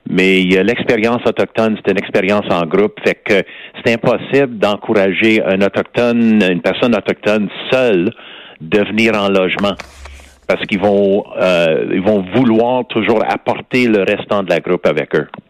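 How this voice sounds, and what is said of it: West Island Montreal accent. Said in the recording (French): “j'ai toujours mon accent du West Island.”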